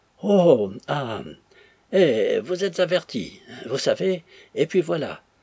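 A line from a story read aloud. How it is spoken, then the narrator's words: Stammering. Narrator (French): balbutia le tortilleur de moustache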